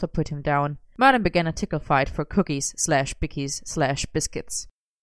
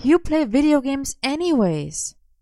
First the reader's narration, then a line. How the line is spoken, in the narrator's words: Morgana sighed